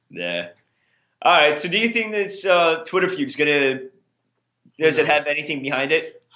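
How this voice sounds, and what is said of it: Boston accent. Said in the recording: “Cause it's your Boston accent.”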